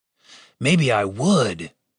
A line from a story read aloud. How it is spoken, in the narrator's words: Dave hissed back at him